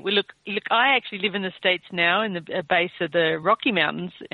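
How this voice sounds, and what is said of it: Australian accent. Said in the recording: “you can probably tell from my accent that I'm Australian”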